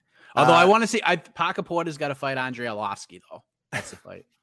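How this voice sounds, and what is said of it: Boston accent. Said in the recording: “Music to my ears, that Boston accent.”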